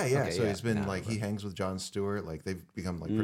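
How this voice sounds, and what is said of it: Usual voice. Nothing is said of it.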